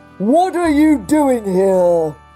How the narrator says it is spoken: he said, with a booming voice

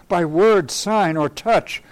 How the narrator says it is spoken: I cried in my mute heart

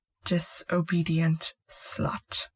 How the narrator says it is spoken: he muttered

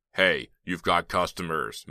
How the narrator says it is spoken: Mel barked angrily

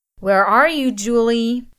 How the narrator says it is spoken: He bellowed

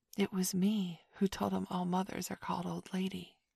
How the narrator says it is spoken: Michael whispered to Curly

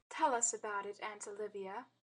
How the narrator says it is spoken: said Peggy

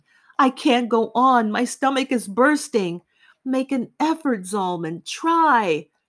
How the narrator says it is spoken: while running, he yelled to me

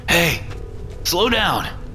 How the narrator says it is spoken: I called after him, wheezing

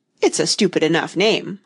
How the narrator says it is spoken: Humpty Dumpty interrupted impatiently

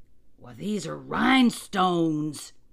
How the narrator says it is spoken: cried

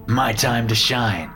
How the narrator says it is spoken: she said, laughing

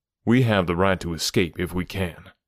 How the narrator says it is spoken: I answered

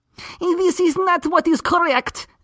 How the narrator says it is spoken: Joseph replied excitedly

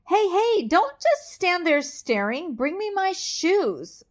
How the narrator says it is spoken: shouts at Manny

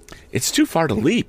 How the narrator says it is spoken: exclaimed Tom

